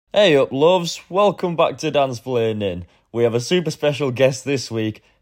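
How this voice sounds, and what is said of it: Northern English accent. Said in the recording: “I know some of you struggle to understand my accent ... our northern roots”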